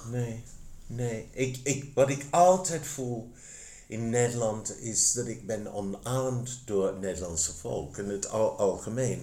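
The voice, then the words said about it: English accent speaking Dutch. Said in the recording (Dutch): “je Engelse accent”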